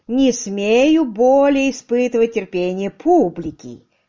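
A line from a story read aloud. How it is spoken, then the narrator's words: Booming, rolling voice. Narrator (Russian): Раскатисто прогремел сэр Генри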